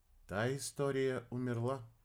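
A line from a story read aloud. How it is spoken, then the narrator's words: Flat, even voice. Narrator (Russian): ровным голосом ответила рыжая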